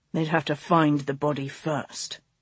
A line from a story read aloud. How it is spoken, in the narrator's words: the Duke growled